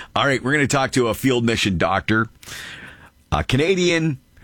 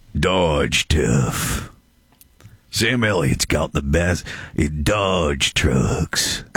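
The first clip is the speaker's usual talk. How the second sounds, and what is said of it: Imitates another person's voice. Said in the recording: “You should have done that in your Sam Elliott voice. ... It's the best I can do with my Sam Elliott.”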